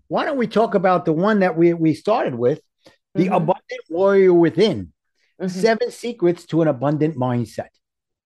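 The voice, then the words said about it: New York accent. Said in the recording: “my New York accent screws it up, from warrior to warrior.”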